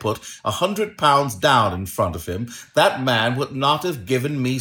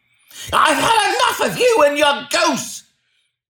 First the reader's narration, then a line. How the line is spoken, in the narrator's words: he shouted